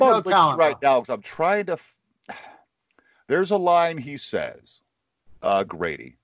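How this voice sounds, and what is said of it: Usual voice. Nothing is said of it.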